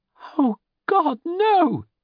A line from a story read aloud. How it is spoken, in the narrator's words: she cried out